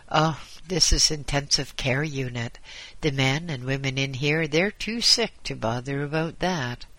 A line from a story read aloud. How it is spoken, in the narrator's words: ambulance man laughed and replied